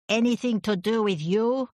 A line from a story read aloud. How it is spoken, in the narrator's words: The elderly Contessa shouted